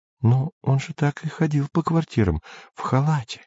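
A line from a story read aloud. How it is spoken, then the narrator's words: Whispering. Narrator (Russian): шептала Сельма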